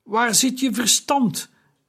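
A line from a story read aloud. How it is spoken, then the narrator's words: Calling out. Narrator (Dutch): riep Taharka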